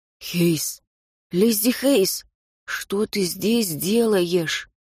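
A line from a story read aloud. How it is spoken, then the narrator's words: Quiet call. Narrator (Russian): Тихо позвал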